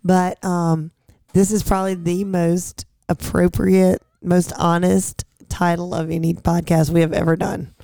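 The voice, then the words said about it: Hoarse voice. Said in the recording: “I'm hoarse, so I sound kind of weird”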